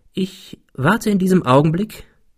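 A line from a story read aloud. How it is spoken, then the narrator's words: Calm. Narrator (German): fuhr er ruhig fort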